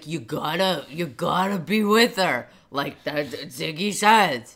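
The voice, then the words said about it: Imitates a TV character's voice. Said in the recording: “That's a very good Al impression.”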